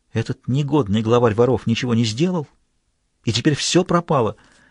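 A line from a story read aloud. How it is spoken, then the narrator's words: Strangled frightened whisper. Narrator (Russian): Лао-Цин мгновенно побледнел, прошептав сдавленным голосом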